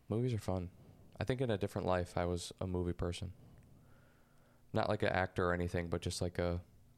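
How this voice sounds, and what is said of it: Very slow speech. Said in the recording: “I just talk this way. I have a slow, very slow talking whatever.”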